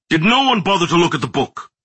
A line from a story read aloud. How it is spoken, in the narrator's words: Wainwright snapped